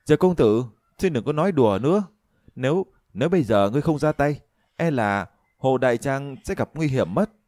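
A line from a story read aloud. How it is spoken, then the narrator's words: Feigned weakness, loud shout. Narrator (Vietnamese): Thường Tiên Cô cũng giỏi diễn trò, thấy vậy thì lập tức giả bộ lực bất tòng tâm, liên tục lùi lại rồi hét lớn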